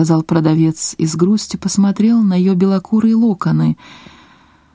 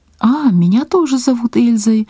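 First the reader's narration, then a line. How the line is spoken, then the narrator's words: Little girl's exclamation. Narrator (Russian): воскликнула маленькая покупательница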